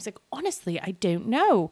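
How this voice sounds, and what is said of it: Weak attempt at British accent. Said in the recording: “I can't do a good British accent.”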